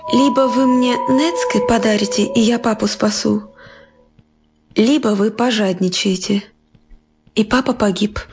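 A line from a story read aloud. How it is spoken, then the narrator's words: Girl sighing, stern. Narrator (Russian): Девочка тоже вздохнула и сурово произнесла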